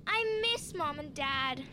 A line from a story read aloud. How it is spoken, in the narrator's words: sighed Maddie, a little overwhelmed